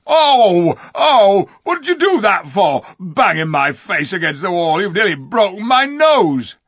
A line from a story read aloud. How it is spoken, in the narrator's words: rubbing his nose and howling